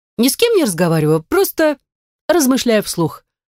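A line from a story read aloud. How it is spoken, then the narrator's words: Overly joyful cackling. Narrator (Russian): ответила я Михаилу и загоготала, возможно, излишне радостно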